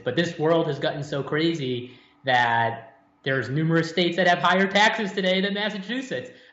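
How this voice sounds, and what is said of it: Massachusetts accent. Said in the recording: “the accent that I still have to this day, I was born and raised in the very conservative bastion of Massachusetts”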